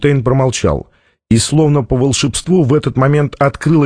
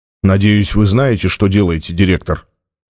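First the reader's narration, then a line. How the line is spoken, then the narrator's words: Cold. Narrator (Russian): холодно сказал Джабба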